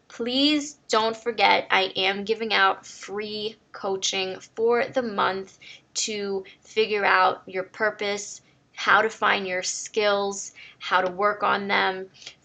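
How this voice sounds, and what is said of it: Slightly hoarse, partly lost voice. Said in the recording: “I lost my voice a little bit”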